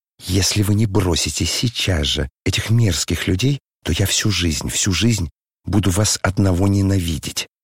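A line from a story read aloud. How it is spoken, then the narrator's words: Whispering. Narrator (Russian): прошептала Аглая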